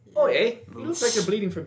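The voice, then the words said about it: Poor attempt at Canadian accent. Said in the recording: “What was that accent? ... That was not a Canadian accent. ... That was not Canadian.”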